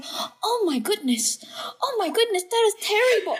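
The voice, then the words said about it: Exaggerated Asian accent. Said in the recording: “I literally had the most exaggerated Asian accent ... I literally sounded just like this.”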